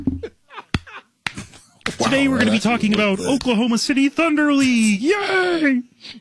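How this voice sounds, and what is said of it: Kermit the Frog puppet voice. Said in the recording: “Probably between Elmo or Kermit. ... Kermit the Frog”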